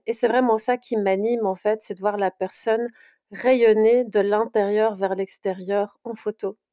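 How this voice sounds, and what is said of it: Slight Belgian French accent. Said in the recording (French): “je suis de Bruxelles... on entend ce petit accent euh, qui est assez agréable à, entendre”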